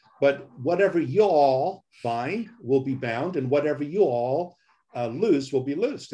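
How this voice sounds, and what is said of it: Put-on Southern accent. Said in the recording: “I'm going to use a little bit of Southern accent here”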